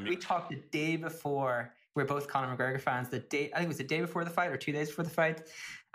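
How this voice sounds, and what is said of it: Irish accent. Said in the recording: “Maybe it's the Irish accent”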